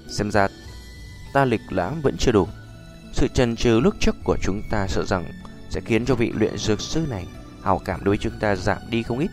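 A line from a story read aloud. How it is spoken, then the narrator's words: Sigh, bitter laugh. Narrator (Vietnamese): Nhã phi thở dài một hơi cười khổ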